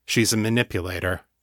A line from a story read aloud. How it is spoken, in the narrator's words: John said, evenly